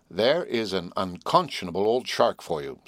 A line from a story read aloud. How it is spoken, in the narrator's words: said Herbert